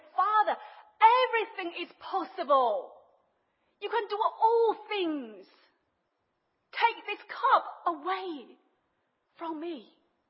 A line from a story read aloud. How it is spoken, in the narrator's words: he cried out, he said